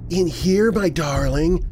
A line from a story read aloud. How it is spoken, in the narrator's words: Rhonda's voice called out from the closet